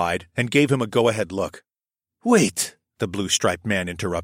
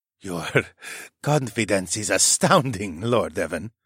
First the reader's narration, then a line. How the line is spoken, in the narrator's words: the man chuckled